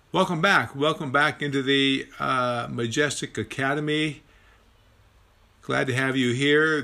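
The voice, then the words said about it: Raspy voice. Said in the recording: “raspy voice”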